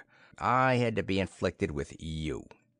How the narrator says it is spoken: he growled

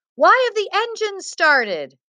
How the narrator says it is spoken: one of the passengers yelled

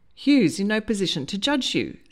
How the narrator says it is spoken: said firmly

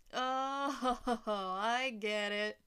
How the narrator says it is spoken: Trump laughed

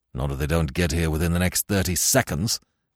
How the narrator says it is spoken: answered Weymouth grimly

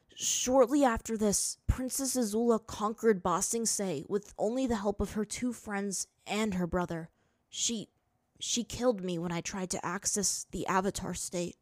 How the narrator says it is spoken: Aang choked out

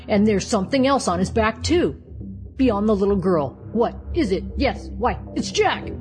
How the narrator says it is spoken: A tremendous shout went up from 40 throats

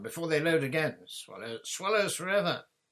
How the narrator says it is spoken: shouted John

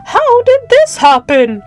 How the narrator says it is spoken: cried

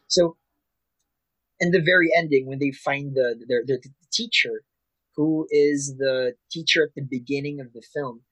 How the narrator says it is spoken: I cried

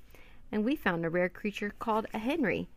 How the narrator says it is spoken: said Annie, giggling

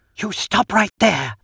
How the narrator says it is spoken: she hisses

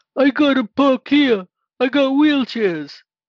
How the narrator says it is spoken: hollered

